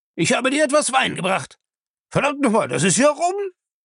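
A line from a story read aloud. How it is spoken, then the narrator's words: Loud delighted shriek. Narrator (German): Er kreischte laut vor Vergnügen über seinen eigenen Witz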